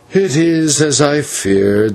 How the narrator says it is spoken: said the old man with a sigh

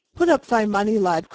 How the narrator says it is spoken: cried the other quickly

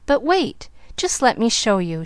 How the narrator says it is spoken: she exclaimed

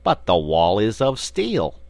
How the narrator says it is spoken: exclaimed the big frog

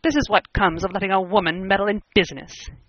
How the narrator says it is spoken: he said bitterly

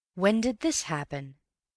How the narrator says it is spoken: he asked

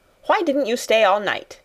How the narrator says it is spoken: she snapped

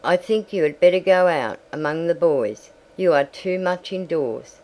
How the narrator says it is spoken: she said

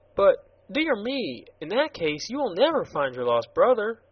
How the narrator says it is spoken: exclaimed the girl

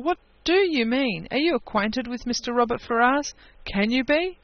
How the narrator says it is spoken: cried Eleanor

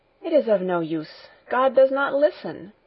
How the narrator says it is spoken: Heidi went on, in an agitated voice

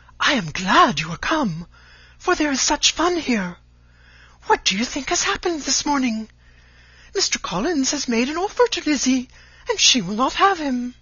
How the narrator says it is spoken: flying to her, cried in a half-whisper

